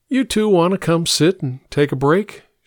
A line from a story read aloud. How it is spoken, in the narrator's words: she asked